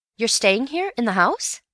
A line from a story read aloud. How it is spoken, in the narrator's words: said Bill, eagerly